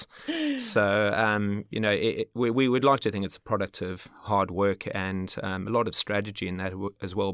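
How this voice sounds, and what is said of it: South African accent. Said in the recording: “a bit of an accent. He's South African... Can't seem to shake that accent.”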